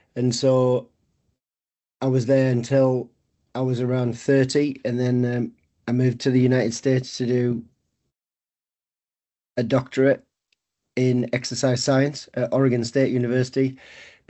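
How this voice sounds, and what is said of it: North East English accent. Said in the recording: “I grew up in the UK, England, the North East, as you can probably tell by my accent.”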